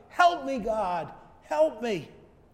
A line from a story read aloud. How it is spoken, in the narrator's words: he had no other choice but to shout